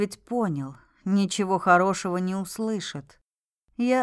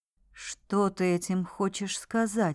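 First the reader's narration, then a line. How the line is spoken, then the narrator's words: Whispered question. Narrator (Russian): спросил шепотом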